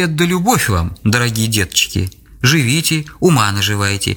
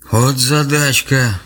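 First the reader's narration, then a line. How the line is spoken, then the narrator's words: Playful sigh, old man. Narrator (Russian): шутливо вздохнул дед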